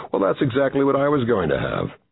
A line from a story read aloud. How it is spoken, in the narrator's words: Clint laughed and said